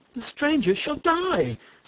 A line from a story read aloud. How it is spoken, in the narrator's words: snapped one